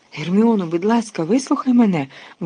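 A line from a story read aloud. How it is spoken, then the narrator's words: Exclamation. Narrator (Ukrainian): вигукнув Люпин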